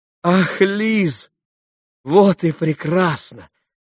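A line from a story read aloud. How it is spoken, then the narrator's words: Joyful exclamation. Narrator (Russian): радостно воскликнул Алеша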